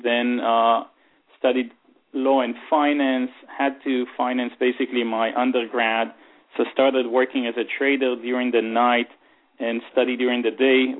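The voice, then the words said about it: Israeli-accented English. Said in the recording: “you can hear from my weird and bad accent that I'm Israeli”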